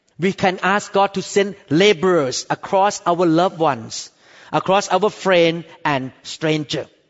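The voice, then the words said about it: Strongly accented English. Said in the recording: “Many people cannot handle my accent ... somebody loved my accent ... you say so many wrong accent”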